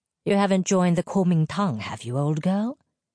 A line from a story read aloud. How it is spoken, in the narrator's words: said dryly